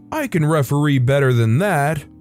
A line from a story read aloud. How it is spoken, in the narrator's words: He yelled